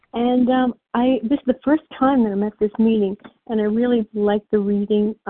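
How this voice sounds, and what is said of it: Real New York accent. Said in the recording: “You hear have the real New York accent.”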